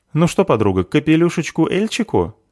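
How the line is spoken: Cheerful offer. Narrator (Russian): весело предлагает заверушка, изображающая в своей мантии великую птаху

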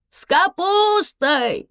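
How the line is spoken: Shouting woman. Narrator (Russian): кричала женщина

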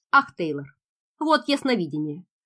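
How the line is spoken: Muttered. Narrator (Russian): пробормотал майор

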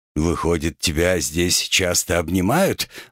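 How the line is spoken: Gloomy question. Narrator (Russian): мрачно поинтересовался Олег

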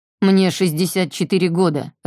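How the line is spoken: Barking. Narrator (Russian): рявкнул Альф

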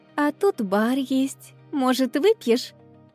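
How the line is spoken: Sweet angelic question. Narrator (Russian): Ангельским голосом спросила я

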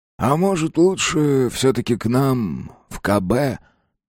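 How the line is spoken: Hoarse wheeze. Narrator (Russian): просипел Еремеев

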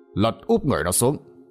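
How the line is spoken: Calm, lowered voice. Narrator (Vietnamese): Còn ông Sát thì bình tĩnh bước đến gần Tư Dạ, hạ giọng nói

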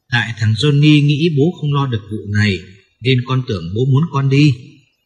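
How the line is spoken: Loud laughter. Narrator (Vietnamese): Johnny cười lớn

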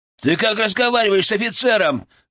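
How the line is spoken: Menacing bark. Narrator (Russian): грозно рявкнул выскочка

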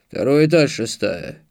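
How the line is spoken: Owner grumbling. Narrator (Russian): пробурчал владелец

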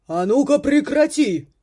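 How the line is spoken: Booming voice. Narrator (Russian): прогремел голос

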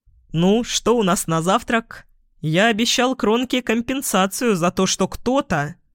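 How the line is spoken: Deep bass voice. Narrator (Russian): Виктор пробасил

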